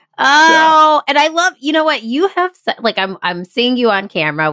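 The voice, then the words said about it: Nasal twangy accent. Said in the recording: “this nasal twang thing I've got going on ... Everybody's got an accent.”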